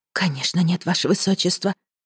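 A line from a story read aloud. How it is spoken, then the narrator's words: Whispered. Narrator (Russian): прошептала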